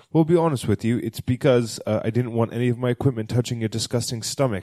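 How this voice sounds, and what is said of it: Put-on accent for a doctor. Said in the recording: “I don't know where the doctor's from, but I'm going to give her this accent.”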